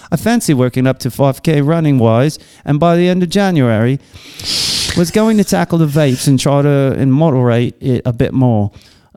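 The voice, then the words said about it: Put-on British accent. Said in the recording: “You sound like Russell Brand. ... rate my British accent.”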